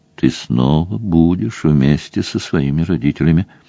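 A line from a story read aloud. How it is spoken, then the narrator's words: Gentle sympathetic priest. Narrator (Russian): ласково и сочувственно сказал священник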